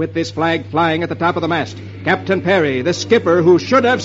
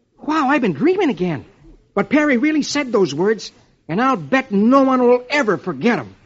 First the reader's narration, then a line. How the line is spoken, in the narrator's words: And Dick exclaims